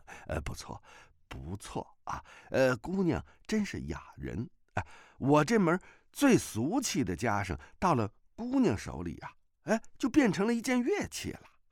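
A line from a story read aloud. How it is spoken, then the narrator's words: Smiling. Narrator (Chinese): 崔百全色然一笑，道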